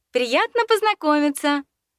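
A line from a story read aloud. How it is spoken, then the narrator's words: Cheerful chirp. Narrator (Russian): радостно чирикнула я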